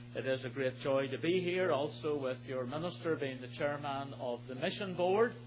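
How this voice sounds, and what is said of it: Speaks with a noticeable accent. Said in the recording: “I trust you will understand my accent today”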